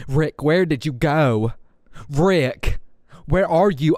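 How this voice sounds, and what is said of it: Overdone, unconvincing fake American accent. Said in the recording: “with her like overly done American accent ... it's like she's imitating somebody from here ... that's not even a good accent”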